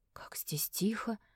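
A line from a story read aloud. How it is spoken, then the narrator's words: Ringing whisper. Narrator (Russian): прошептала Фиона, но ее голос прозвучал звонко в морозном хрустальном воздухе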